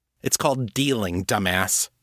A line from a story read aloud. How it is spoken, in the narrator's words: Abby snarled